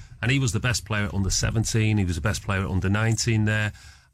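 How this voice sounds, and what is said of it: Mancunian English accent. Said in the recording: “my accent sounds Mancunian”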